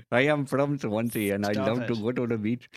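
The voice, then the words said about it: Put-on Welsh accent drifting Indian. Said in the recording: “Doing a Welsh accent ... that Welsh accent is selling, because it's a difficult one to do ... you can slip very, very easily into accidentally doing a Bombay accent”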